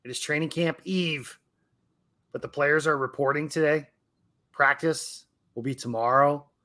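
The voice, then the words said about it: Excited voice. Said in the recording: “the excitement in my voice”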